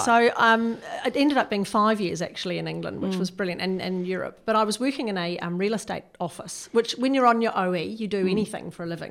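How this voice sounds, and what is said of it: New Zealand accent. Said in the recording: “You can tell from a little bit of my accent, I'm a Kiwi”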